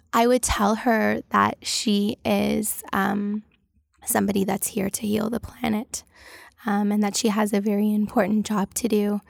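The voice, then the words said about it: Tearful, emotional voice. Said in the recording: “I'm crying, so that's why my voice is doing this.”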